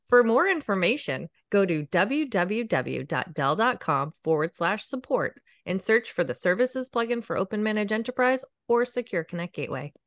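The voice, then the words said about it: Radio advertisement announcer voice. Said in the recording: “my best radio ad impression.”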